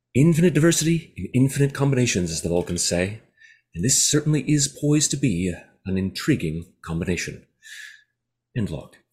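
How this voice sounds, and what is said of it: Good put-on Denobulan accent. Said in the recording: “a very good Denobulan accent, or cadence, as it were”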